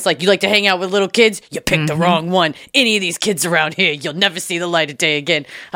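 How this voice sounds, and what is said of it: Tony Soprano-style tough-guy accent. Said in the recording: “I don't know why I'm doing that accent. I just, probably because of Tony Soprano.”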